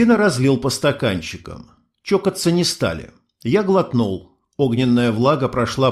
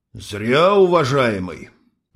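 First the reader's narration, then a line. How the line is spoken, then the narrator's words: Serpent's sigh. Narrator (Russian): вздохнул змей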